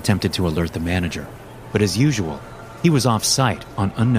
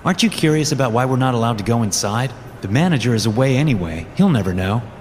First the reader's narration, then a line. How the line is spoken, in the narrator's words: Ray said back